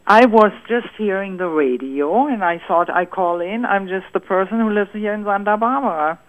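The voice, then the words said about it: German accent. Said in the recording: “I'm from Germany. ... I love your accent. ... Oh, it's beautiful.”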